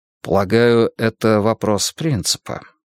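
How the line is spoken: Soft. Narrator (Russian): мягко заметил я

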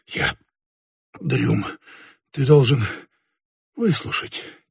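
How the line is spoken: Quiet. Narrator (Russian): тихо произнес он

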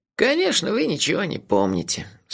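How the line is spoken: Sympathetic sigh. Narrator (Russian): сочувственно вздохнул магистр Моти

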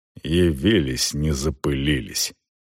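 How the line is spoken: Muttering. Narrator (Russian): пробормотал Челвик

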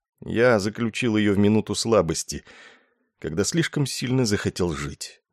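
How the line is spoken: Gloomy wisecrack. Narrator (Russian): уныло сострил Ессариан

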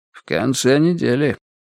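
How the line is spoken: Quiet. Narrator (Russian): так же тихо отозвался Берр

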